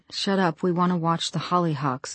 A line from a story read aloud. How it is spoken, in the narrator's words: Lizzie murmured